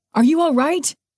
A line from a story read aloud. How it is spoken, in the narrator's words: some good Samaritan yelled